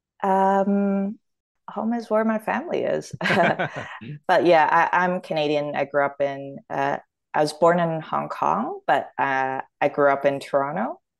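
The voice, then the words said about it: Canadian English accent. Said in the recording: “your accent is Canadian”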